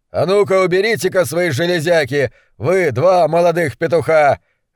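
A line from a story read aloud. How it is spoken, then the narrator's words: Barking. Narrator (Russian): рявкнул сэр Руперт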